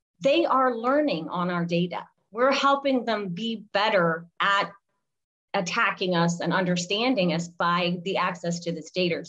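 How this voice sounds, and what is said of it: Slight Alabama Southern accent. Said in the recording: “a little bit of the Alabama accent coming through, the data”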